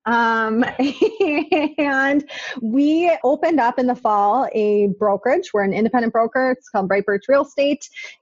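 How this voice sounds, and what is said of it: Minnesota accent. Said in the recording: “if they listen long enough, they'll be able to guess where I'm from, but I'm from Minnesota. The accent is real. It's authentic.”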